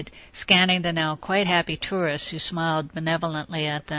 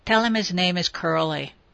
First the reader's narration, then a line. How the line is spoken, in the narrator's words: replied curtly